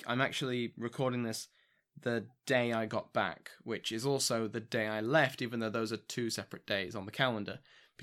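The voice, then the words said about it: Tired, worn-out, fading voice. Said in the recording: “I'm, you know, exhausted. You can probably hear it in my voice. My voice is going”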